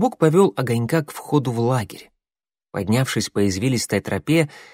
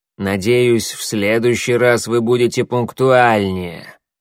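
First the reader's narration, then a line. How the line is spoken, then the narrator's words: Growled. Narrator (Russian): прорычал Коготь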